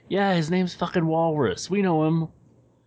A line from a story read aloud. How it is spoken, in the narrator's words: one of the guys from the second group, The disheveled looking guy yells out